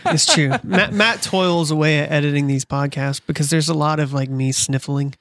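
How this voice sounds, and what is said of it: Nasal, congested sick voice. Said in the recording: “I'm mega sick right now. So if I sound like a nasally asshole”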